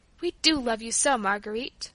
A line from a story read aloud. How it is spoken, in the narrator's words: Paula murmured in her ear